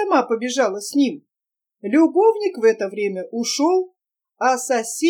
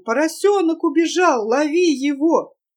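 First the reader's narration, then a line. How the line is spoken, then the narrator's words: Shouted. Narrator (Russian): да и закричала мужу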